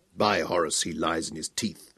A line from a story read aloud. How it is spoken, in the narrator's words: Kratos growled